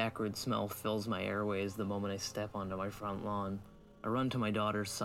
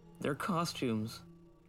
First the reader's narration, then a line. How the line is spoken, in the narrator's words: Chuck wails